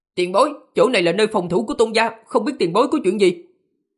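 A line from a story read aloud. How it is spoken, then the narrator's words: Young man, loud. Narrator (Vietnamese): Người thanh niên kia lớn tiếng nói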